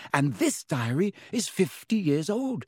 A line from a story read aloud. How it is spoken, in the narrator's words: said Hermione excitedly